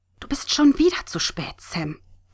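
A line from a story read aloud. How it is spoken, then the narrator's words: Hiss. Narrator (German): zischte Katrin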